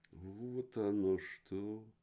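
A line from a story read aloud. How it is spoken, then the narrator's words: Thoughtful. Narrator (Russian): задумчиво сказала тетушка Барбацуца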